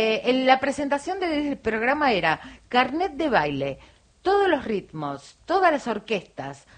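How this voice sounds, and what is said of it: Usual voice. Nothing is said of it.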